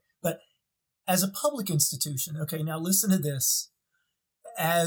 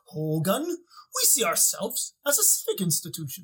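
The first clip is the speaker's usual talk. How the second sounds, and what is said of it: Exaggerated German accent, Colonel Klink. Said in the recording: “a pathetic German accent ... Think of Colonel Klink and Hogan's Heroes.”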